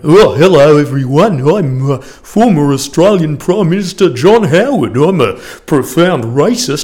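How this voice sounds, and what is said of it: Impression of John Howard. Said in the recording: “impersonate the then Prime Minister of the day”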